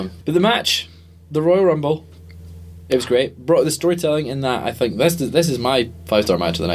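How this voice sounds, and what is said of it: Usual voice. Nothing is said of it.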